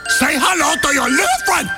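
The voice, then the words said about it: Put-on Cuban accent. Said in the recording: “What kind of accent is that? ... It's Cuban!”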